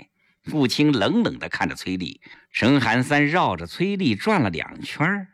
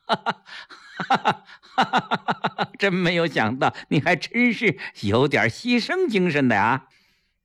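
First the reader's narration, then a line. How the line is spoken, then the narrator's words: Hearty laugh. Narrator (Chinese): 陈寒三哈哈一笑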